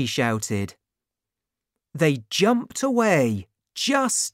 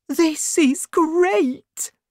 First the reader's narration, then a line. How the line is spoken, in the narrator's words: Tiny cried